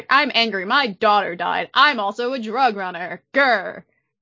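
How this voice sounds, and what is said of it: Gruff angry character impersonation. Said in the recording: “I hope you guys liked that impersonation. ... Yes, it was brilliant.”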